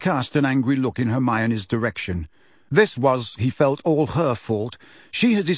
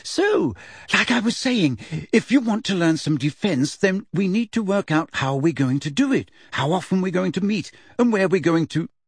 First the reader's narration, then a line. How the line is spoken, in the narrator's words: said Hermione, her voice very high-pitched again